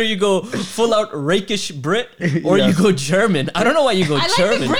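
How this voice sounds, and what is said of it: Usual voice. Nothing is said of it.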